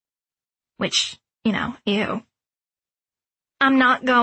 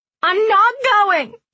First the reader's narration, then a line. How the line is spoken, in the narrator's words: She sobbed